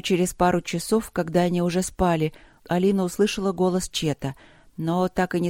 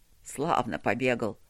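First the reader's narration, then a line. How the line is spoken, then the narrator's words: Cheerful, quiet. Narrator (Russian): весело и негромко говорил он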